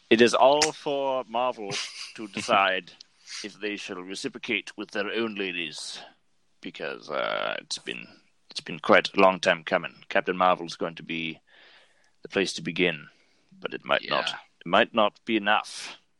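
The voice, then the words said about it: Puts on an odd voice. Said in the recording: “doing this voice.”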